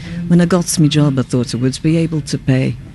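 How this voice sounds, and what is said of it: Put-on Liverpudlian accent. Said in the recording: “accent work ... helps you get into the accent, and that was a Liverpudlian accent”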